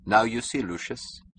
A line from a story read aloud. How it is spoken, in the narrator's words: Francon answered dryly